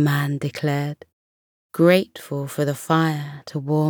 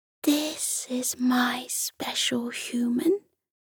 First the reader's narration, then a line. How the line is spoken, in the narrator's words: whispered contentedly